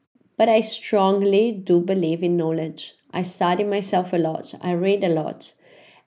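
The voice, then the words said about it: Sick, unusual-sounding voice. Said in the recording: “sorry for my voice today, but I'm a little bit sick ... I hope you can enjoy my funny voice”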